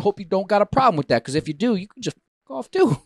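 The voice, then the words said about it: Put-on accent. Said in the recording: “I'm going to tell the rest of the story in this accent.”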